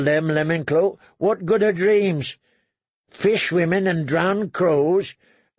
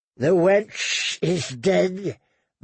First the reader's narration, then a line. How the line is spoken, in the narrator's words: the woman hissed